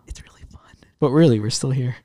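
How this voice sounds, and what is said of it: Whispering. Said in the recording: “whispering? Why are we whispering”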